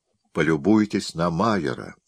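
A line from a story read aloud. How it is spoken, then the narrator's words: Plain. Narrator (Russian): ответил Скотт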